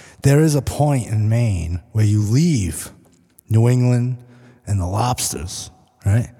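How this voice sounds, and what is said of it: Usual voice. Nothing is said of it.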